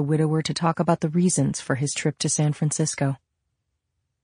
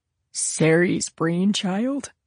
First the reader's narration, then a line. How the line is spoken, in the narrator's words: he said sadly